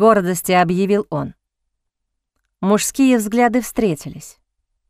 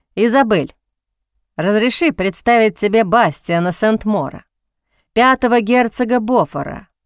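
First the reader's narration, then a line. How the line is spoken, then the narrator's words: Calm. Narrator (Russian): произнес спокойно Джозеф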